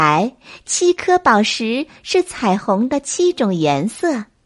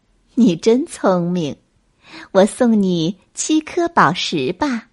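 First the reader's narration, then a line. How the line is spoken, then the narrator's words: Fairy, smiling. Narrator (Chinese): 白衣仙女笑了笑说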